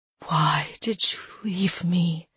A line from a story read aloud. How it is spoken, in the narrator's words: she whispered